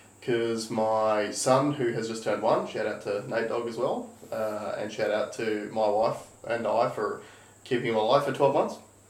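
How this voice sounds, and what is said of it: Sick, hoarse-sounding voice. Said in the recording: “As you can probably hear in my voice, I'm still currently recovering from my second bout of tonsillitis”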